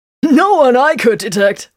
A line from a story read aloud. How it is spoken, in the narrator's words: Rogan laughed with grim satisfaction